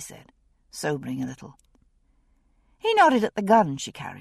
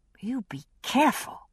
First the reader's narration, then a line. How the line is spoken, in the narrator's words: said fiercely